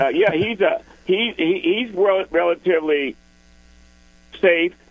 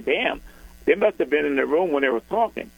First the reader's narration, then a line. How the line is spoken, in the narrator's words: I laugh and say